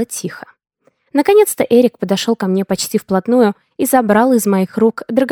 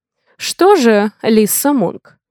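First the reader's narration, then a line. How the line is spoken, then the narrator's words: Snorting remark. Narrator (Russian): хмыкнул управляющий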